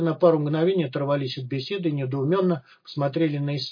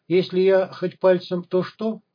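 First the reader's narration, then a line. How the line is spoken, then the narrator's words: Interrupting, then laughing. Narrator (Russian): перебил его цивильный и рассмеялся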